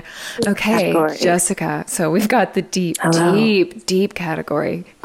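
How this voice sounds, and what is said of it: Put-on sexy voice. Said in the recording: “Here's my sexy voice”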